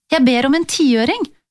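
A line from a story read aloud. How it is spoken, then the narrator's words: Eager explanation. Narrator (Norwegian): forklarte jeg ivrig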